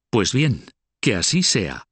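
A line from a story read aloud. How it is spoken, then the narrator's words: Exclaiming. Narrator (Spanish): exclamó la condesa de Salisbury, su vecina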